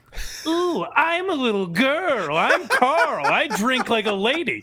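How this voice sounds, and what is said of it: Silly mocking imitation voice. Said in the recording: “my Carl impression ... In a silly voice”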